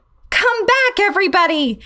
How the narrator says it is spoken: I yelled to the rest of the class

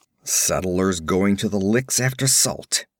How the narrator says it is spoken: he grunted

